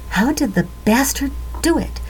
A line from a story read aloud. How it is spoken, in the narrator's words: Langtree muttered